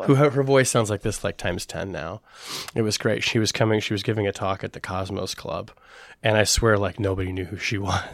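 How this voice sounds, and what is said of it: Raspy, husky voice. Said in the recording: “raspy reporter. I'm a little raspy today ... a little raspy ... a little raspy and husky”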